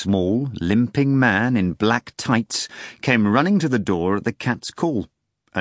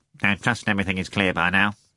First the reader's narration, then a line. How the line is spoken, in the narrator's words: the new arrival said in a quiet nasal voice